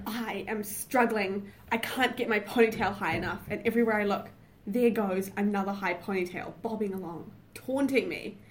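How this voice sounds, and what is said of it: Loud, dramatic reading voice. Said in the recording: “loud in a dramatic voice”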